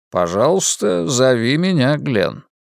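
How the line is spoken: Very calm. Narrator (Russian): сказал мистер Бейтман очень спокойно

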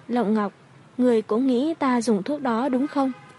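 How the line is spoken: Sharp voice. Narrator (Vietnamese): Giọng nói của Hoài Chư Vũ có vẻ sắc bén

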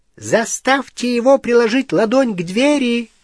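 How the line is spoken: Shouted. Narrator (Russian): крикнул Крюкохват

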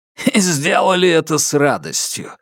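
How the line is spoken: Snorting. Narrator (Russian): фыркнул Фаразар

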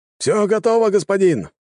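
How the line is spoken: Shouted from walls. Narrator (Russian): крикнул мне со стен гвардеец

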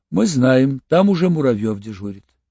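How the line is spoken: Calm. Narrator (Russian): он сказал спокойно

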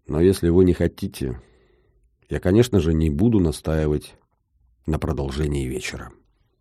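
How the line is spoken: Dull, deflated voice. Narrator (Russian): как-то сразу потухла и тусклым голосом продолжила

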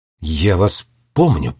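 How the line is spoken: Muttering. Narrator (Russian): пробормотал он

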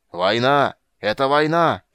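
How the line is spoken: Shouted over the noise. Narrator (Russian): прокричал король, перекрывая шум

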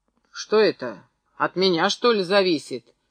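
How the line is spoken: Sharp shout. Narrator (Russian): прикрикнул даже Филька

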